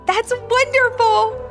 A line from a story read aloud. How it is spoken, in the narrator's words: exclaimed Ivy